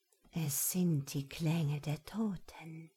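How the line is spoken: Whisper at ear. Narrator (German): flüsterte Chantals Stimme an seinem Ohr

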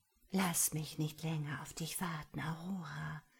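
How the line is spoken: Inner voice whispering. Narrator (German): flüsterte die Stimme in ihrem Kopf

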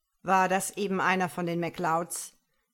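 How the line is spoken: Blustering. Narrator (German): polterte Alistair McKinnon

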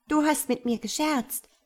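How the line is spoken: Calling out. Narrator (German): rief die Schwalbe

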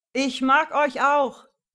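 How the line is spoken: Bellowing. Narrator (German): brüllte Emil

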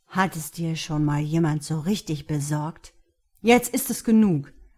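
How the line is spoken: Very angry. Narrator (German): Mark klang verdammt wütend

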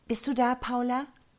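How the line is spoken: Calling out. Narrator (German): rief Rita

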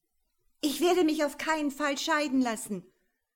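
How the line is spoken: Angry shout. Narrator (German): schrie ihm Claudia aufgebracht nach

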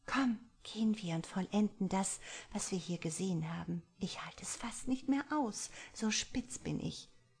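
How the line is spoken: Quiet. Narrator (German): meinte Angie leise

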